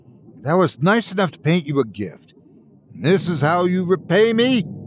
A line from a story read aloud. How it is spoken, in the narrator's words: she yelled